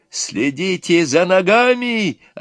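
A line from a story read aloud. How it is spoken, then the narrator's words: Shouting again. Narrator (Russian): опять крикнул жених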